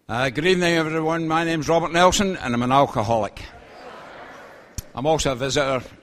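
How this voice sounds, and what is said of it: Scottish accent. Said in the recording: “I come from Scotland, actually. You probably realize it with my accent.”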